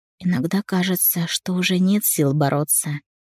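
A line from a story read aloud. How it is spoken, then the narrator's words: Quiet confession. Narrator (Russian): призналась тихо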